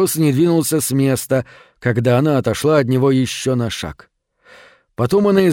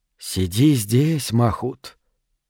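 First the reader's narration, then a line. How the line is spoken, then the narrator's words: Whisper. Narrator (Russian): прошептала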